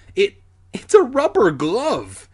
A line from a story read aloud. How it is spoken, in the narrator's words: Alex exclaimed